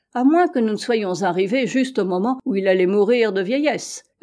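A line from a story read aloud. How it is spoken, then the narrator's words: Doctor answering, laughing. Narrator (French): répondit le docteur en riant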